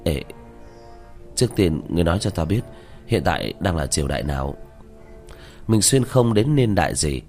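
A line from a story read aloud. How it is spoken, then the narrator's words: Reluctant, perfunctory. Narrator (Vietnamese): Diệp Thiếu Dương khóe miệng run rẩy, miễn cưỡng có lệ mà nói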